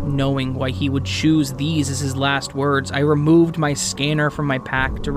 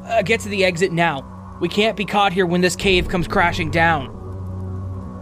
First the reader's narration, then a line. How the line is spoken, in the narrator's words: Yelling over the noise